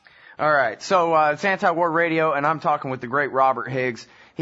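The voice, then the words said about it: Texas drawl. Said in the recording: “Still own my Texas drawl.”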